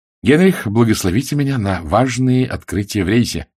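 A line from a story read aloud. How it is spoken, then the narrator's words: Cheerful. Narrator (Russian): сказала она весело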